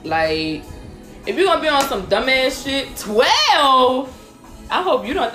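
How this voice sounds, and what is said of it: Yelling, loud emphatic speech. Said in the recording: “I'm sorry. I'm yelling at y'all.”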